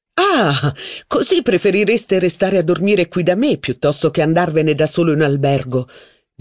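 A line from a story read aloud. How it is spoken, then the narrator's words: Laughing while speaking. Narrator (Italian): disse Saint Loup ridendo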